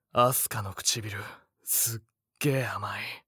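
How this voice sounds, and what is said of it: Low whisper. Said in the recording (Japanese): “耳元で低くささやく”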